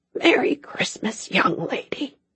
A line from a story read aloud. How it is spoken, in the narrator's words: he whispered